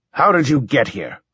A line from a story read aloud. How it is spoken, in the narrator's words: I snapped